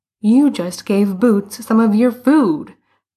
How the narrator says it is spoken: Bruno exclaimed

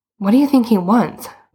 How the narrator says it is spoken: Boots said nervously

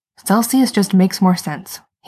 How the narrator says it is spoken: he says tightly

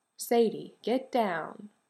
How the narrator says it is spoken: Jared said, calmly

